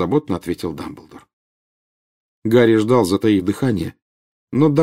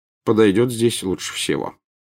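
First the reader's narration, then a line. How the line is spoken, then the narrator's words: Plain. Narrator (Russian): сказал Дамблдор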